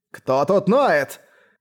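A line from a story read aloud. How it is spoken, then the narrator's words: Furious roar. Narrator (Russian): в ярости взревел он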